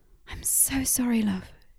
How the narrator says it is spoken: murmured

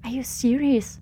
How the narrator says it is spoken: whispered Ji-Hyun to no one in particular

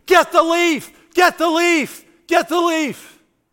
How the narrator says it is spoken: my mother-in-law begins to scream

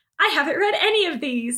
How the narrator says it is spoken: she exclaimed

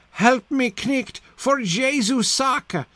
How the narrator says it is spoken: cried on loud and sighed

